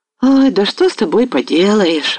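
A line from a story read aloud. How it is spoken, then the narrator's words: Sighing. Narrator (Russian): вздохнул отец Григорий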